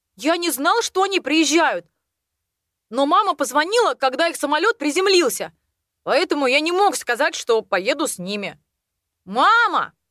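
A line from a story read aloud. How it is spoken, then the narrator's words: Sudden shout. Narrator (Russian): Неожиданно крикнул он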